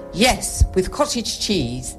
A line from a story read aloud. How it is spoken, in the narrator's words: Maud said firmly